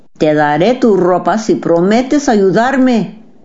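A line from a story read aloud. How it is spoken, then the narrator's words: Plain. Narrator (Spanish): dijo el príncipe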